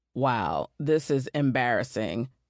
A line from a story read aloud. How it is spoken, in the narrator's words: he grumbled